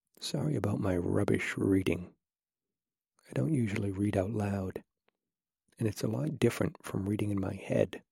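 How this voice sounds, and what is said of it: Whispering. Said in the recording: “whispering makes it difficult.”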